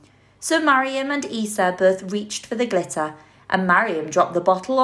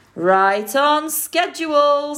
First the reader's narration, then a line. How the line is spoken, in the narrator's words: said Dad with a peal of laughter